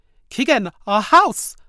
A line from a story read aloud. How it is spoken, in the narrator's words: Mama screamed